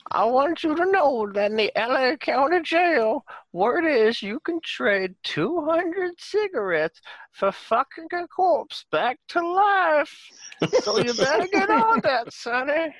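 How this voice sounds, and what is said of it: Old grandmother voice. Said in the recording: “Your accent is grandma. ... Does this sound like your grandmother?”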